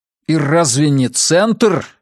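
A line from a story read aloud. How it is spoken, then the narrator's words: Angry. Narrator (Russian): сердито продолжал я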